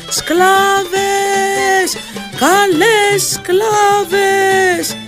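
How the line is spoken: Shouting. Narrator (Greek): φωνάζει

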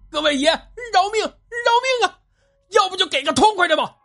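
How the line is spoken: Straining hoarse yell. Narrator (Chinese): 张连长扯着嗓子喊道

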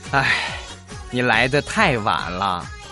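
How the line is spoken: Sighing. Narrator (Chinese): 医生叹了一口气

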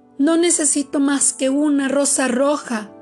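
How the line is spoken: Nightingale crying out. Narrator (Spanish): gritó el ruiseñor

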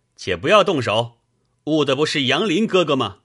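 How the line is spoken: Calling out. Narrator (Chinese): 上手的那个便叫道

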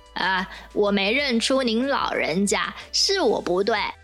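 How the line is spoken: With a smile. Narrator (Chinese): 孙悟空笑了笑

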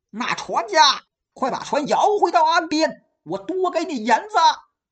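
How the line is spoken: Loud shout. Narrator (Chinese): 大声喊

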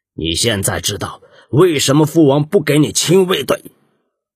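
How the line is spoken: Angry rebuke. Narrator (Chinese): 摩诃莫沙怒斥

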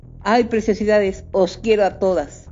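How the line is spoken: Drunken bellow. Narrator (Spanish): Una voz de acento etílico bramó

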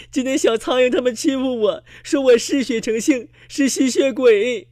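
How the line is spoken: Crying. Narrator (Chinese): 小蚊子哭着说

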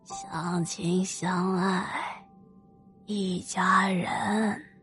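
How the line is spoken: Thin-voiced murmur. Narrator (Chinese): 细着嗓子喃喃的说

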